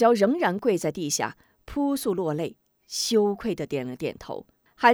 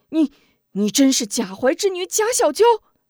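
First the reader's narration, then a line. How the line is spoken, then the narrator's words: Stern sharp question. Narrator (Chinese): 吴中……厉声问道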